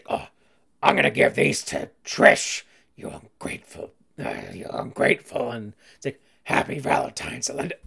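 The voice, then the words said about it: Gravelly Cookie Monster-like voice. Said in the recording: “my Vince impersonation ... that was more Cookie Monster ... kill my voice”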